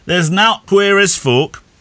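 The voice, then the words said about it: Yorkshire accent impression. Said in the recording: “That was my best impression of a late Yorkshire grandfather”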